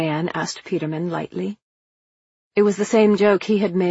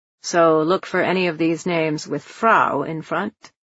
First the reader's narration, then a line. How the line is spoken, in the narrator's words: he'd asked